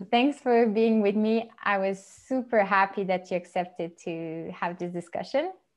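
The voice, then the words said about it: French-Canadian accented English. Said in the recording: “English is for the both of us our second language ... I'm from Montreal, and I mostly speak French. So people will understand by our accent ... that we're not native English speakers.”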